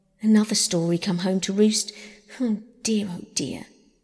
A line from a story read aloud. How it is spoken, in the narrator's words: she would sigh when she opened them and say